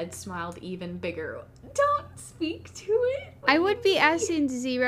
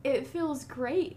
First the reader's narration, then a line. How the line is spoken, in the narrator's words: the head groaned